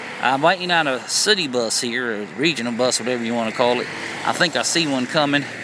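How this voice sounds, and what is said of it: Usual voice. Nothing is said of it.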